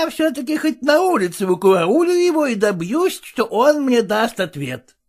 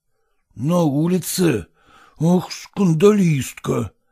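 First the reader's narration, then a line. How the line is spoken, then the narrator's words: Whisper. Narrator (Russian): прошептал Селезенкин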